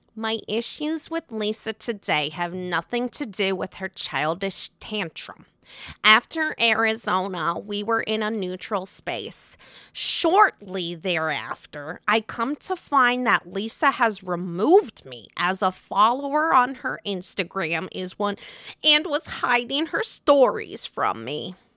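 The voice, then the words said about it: Imitates another person's voice. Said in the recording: “in my best Meredith voice.”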